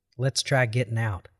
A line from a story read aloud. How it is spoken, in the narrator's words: he said